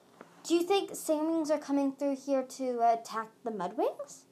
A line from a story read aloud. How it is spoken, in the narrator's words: Sunny said hesitantly